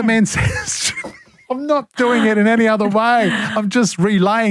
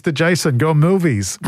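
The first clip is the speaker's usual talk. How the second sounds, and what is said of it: Bad put-on accent. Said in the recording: “my bad impersonation. I've got to stop doing accents.”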